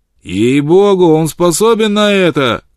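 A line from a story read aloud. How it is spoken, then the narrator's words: Shout from crowd. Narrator (Russian): крикнул кто-то в толпе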